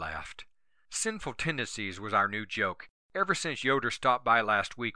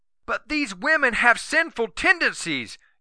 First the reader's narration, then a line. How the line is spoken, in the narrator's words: Yoder had yelled